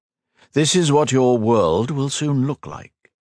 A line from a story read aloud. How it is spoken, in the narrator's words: he replied